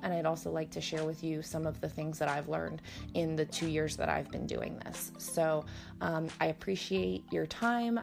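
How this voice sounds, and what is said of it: Slightly scratchy, hoarse voice. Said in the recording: “It sounds like I'm getting some kind of allergy something ... my voice was a little bit scratchy and kooky today”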